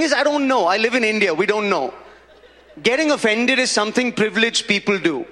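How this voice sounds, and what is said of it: Usual voice. Nothing is said of it.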